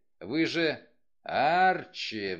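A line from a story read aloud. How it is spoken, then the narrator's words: Roaring. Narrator (Russian): взревел Вульф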